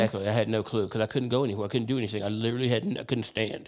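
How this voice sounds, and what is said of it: Usual voice. Nothing is said of it.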